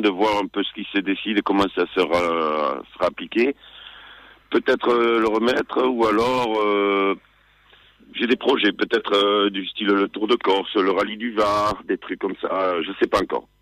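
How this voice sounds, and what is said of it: Sing-song southern French accent. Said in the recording (French): “cet accent chantant”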